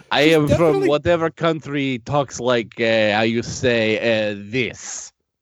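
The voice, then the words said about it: Put-on Eastern European accent. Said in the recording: “the accent. Is there Eastern European?”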